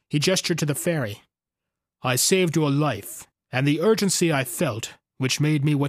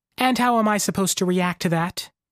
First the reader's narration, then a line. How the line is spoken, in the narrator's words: she asked